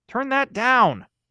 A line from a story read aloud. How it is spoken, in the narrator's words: Maureen yelled from the bottom floor